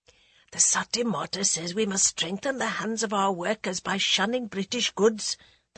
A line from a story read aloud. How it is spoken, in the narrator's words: the guide whispered